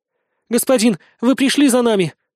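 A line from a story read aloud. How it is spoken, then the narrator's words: Sobbing. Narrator (Russian): Также разрыдалась Бетринна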